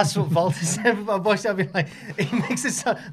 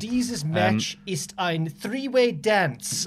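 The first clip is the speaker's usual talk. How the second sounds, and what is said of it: Put-on German accent. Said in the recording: “the German accent”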